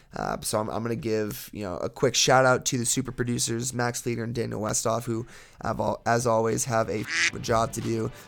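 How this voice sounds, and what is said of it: Raspy, tired voice. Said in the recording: “I'm exhausted. You guys can hear the rasp in my voice.”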